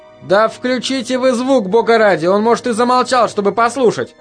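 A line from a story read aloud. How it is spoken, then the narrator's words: Shouted. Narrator (Russian): крикнул Норрис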